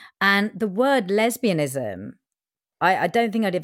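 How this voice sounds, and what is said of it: Usual voice. Nothing is said of it.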